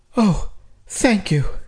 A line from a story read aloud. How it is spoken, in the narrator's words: Chelsea said, and her relief threatened to bring another round of sobs